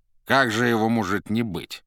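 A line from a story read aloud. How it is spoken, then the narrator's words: Plain. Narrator (Russian): ответил рыжий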